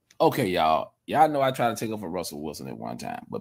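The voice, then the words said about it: Country accent. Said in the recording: “I heard that country accent”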